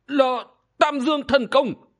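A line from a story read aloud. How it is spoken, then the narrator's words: Shocked exclamation. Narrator (Vietnamese): Tuyết Sơn Băng Ma hoàng giặt trần, bị chấn lùi, kinh ngạc thốt lên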